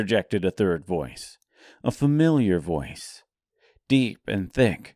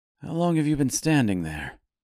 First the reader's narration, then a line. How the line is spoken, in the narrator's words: asked Fink nervously